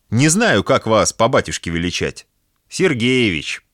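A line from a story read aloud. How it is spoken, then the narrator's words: Laughing. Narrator (Russian): засмеялась Марина Васильевна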